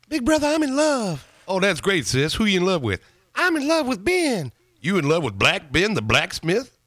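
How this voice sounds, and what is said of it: Richard Pryor impression. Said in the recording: “I'm imitating Richard Pryor ... Richard Pryor. Classic bit.”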